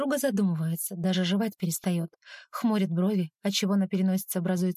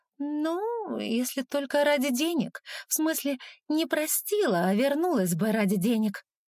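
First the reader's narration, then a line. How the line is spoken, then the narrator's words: Uncertain drawl. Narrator (Russian): тянет неуверенно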